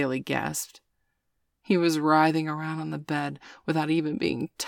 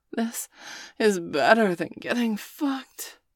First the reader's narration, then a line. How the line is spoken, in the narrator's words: Bailey declared with a heated groan